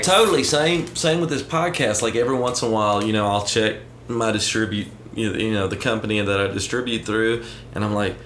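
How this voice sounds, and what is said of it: Southern US Alabama accent. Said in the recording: “this guy with this accent from Northport, Alabama”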